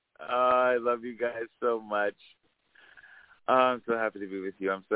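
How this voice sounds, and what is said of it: Smooth radio announcer voice. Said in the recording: “In his radio voice.”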